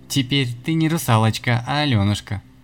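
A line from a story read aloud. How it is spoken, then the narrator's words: Stifled laughter. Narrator (Russian): смеялся Ратибор, прижав кулак к рту, чтобы не залиться еще большим смехом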